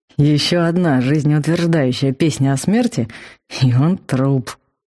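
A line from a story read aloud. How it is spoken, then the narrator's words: Grim, through gritted teeth. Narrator (Russian): мрачно процедил Вал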